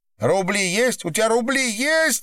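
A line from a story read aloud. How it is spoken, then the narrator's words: Shouting. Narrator (Russian): выкрикнула Николаева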